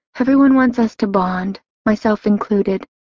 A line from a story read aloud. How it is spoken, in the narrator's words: I let out a sigh